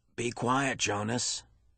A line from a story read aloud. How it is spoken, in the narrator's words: the giver commanded in a strange voice